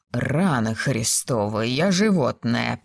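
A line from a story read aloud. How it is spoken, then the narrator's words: Groaning. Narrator (Russian): простонал он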